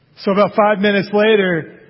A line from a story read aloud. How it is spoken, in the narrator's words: he cried out again